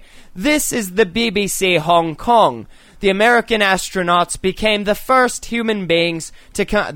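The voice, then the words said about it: Poor put-on British accent. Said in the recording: “a man with a British accent say ... My British accent is awful tonight.”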